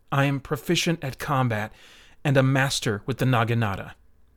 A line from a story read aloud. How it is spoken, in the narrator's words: Tranadol replied in an even tone